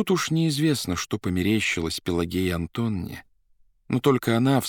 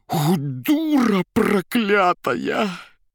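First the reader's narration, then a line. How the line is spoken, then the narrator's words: Hoarse, enraged. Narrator (Russian): хрипя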